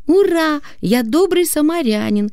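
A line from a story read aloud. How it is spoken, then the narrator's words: Joyful shout. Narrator (Russian): радостно крикнул сын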